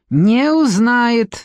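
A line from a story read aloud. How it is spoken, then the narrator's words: Barked. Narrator (Russian): рявкнул шеф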